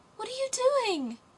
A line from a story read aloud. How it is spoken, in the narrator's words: cried the little girl